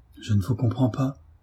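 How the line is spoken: Stammering woman. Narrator (French): dit Marie en balbutiant

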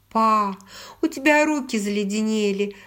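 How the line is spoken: Giggling. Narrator (Russian): сказала, хихикая

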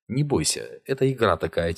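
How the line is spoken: Quiet, soothing. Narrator (Russian): тихо сказал Шурга

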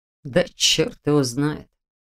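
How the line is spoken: Muttered. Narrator (Russian): пробормотал Дементьев

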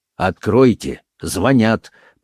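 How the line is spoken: Commanding. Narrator (Russian): повелительным тоном сказал Рауль

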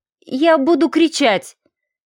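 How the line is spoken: Trembling voice. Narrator (Russian): дрожащим голосом произнесла

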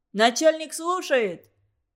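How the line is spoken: Muffled shout into phone. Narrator (Russian): кричал в трубку Дармен, прикрывая рот согнутой ладонью

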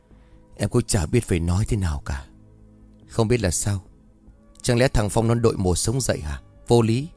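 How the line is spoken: Sighing. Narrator (Vietnamese): Cô liền thở dài

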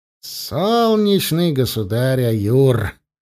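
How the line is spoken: Wry snort. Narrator (Russian): хмыкнул Киран

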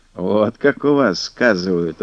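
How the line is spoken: Old man laughing. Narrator (Russian): рассмеялся дед Диадох

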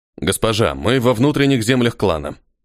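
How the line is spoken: Calm. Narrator (Russian): спокойно произнес он

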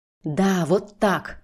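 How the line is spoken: Hoarse whisper. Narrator (Russian): продолжает хрипло шептать он

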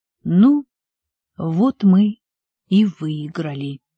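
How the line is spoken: Trembling voice. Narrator (Russian): дрожащим голосом произнес он

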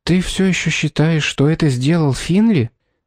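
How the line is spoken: Timid question. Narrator (Russian): Робко спросила Шарлотта

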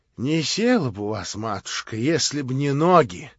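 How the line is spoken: Anguished voice. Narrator (Russian): прибавила она надрывным голосом

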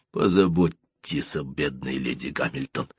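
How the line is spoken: Weakening voice. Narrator (Russian): продолжал слабеющим голосом Нельсон

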